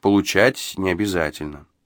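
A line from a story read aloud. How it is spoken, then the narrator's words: Calm reply, host. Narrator (Russian): спокойно ответил хозяин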